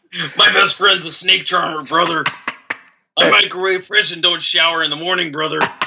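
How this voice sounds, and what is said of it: Hulk Hogan impression. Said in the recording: “Your Hulk Hogan impression, very strong... Hulk Hogan in the house.”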